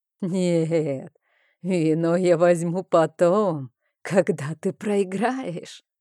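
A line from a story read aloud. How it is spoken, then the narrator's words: Roaring laughter, strange creature. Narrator (Russian): расхохоталось это ненормальное существо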